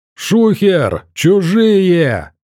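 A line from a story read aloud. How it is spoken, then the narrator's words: Shaggy man yelling. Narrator (Russian): заорал косматый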